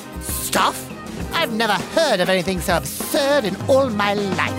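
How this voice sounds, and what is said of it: Cantankerous old lady voice. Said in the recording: “I'll stop doing the cantankerous old lady routine. That was my best Lady Mary Cook impression.”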